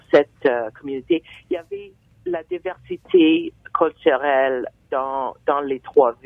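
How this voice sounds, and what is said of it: French with an English-speaking accent. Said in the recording (French): “elle a un, bel accent anglophone”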